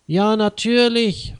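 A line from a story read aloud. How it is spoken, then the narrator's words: Called out. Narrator (German): ruft Leo Schmidt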